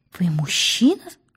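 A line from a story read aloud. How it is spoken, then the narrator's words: Whispered question. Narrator (Russian): шепотом спросила Пелагея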